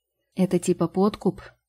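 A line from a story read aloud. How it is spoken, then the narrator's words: Sighing. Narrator (Russian): вздохнула фея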